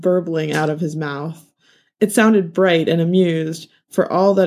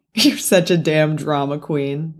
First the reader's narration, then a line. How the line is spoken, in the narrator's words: the man laughed